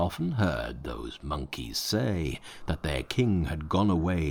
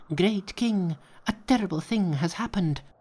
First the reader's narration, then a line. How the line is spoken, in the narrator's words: They rushed into the cave and cried